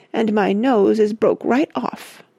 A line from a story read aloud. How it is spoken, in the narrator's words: moaned Missy